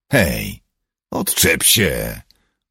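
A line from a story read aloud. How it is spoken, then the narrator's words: Offended grumble. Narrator (Polish): burknął urażony Paul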